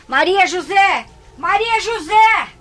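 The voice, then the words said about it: Shouting a name. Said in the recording (Portuguese): “Por que está gritando?”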